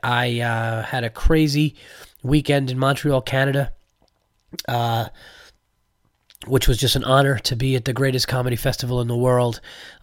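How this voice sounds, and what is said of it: Sick-sounding voice. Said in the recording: “As you could tell from my voice, I apologize about my voice. I am not feeling great ... came home, got sick”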